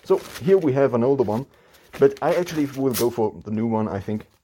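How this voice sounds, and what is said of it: Muffled, mumbled voice. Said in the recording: “my voice might be a little bit mumbled. Not mumbled, but mumped.”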